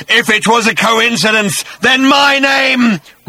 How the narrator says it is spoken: roared the voice

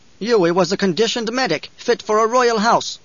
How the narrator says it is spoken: Gurney snarled

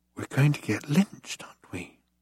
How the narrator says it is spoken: he whispered

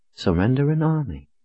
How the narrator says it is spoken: Sister Jodel said in a reflective tone

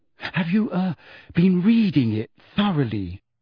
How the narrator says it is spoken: Hermione asked still more anxiously

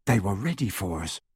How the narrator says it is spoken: whispered Harry

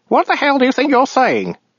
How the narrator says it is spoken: he snapped

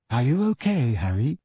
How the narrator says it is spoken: asked Ginny quietly

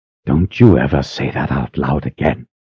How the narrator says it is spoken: she hissed

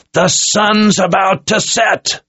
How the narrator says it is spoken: Zed roared

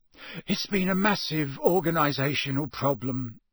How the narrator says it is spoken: sighed Mr

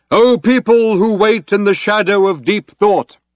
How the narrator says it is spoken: cried out

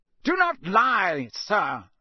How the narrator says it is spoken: shouted Mr

